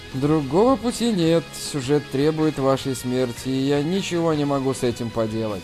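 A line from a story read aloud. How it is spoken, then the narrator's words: Muttered. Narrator (Russian): пробормотал Джан Ян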